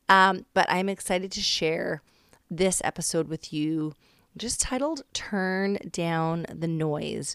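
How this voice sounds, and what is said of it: Raspy voice from a cold. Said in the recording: “I am getting over a cold, so my voice is extra raspy today.”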